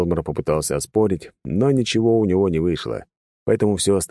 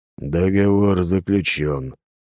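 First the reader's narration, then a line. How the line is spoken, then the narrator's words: Doomed exhale. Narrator (Russian): обреченно выдохнул тот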